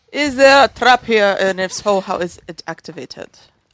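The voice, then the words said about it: Speaks in a put-on accent. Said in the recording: “Why did I have an accent? ... It's the trapping voice.”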